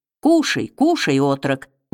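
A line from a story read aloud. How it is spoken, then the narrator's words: Gentle, affectionate. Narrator (Russian): ласково сказал он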